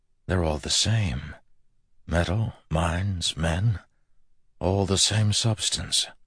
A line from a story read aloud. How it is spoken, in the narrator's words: An awed voice in the back of his mind whispered